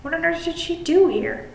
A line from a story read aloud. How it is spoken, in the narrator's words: I cried